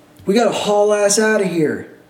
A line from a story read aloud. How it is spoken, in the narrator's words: we yell